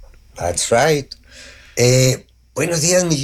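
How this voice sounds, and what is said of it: Usual voice. Nothing is said of it.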